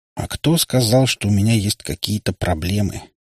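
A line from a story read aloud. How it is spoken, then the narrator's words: Grim joking. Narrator (Russian): мрачно отшутился я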